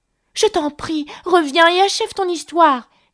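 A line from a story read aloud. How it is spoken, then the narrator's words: Exclaimed. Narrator (French): s'écria Alice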